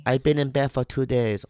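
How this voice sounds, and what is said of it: Put-on Asian accent. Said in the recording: “Asian accent.”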